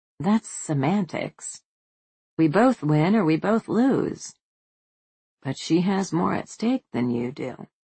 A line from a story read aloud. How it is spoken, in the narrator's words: Micah says gently